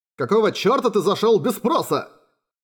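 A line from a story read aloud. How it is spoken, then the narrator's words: Loud exclamation. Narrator (Russian): Громко воскликнул Юсихико, совсем забыв о том, что сейчас глубокая ночь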